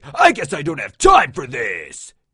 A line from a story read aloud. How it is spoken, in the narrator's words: She bellowed